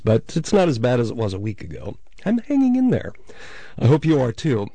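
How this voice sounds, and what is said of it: Voice affected by a lingering cold. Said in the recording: “still fighting the trail end of an early autumn cold. You can probably hear it in my voice”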